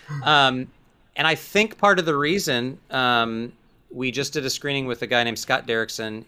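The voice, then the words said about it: Texan accent. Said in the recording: “I'm from Texas, so my accent sometimes.”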